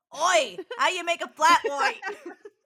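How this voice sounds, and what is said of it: Put-on Australian accent. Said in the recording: “That was my best Australian accent.”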